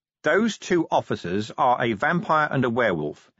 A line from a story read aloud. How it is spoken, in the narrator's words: he said, still in the same level voice